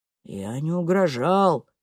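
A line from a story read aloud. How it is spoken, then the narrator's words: Mumbling. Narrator (Russian): бормочет Олаф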